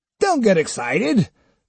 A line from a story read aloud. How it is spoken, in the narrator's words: the leader shouted angrily in a rough mountain dialect